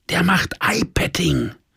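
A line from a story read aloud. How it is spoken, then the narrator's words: Whisper. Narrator (German): flüsterte meine Süße über unseren Tisch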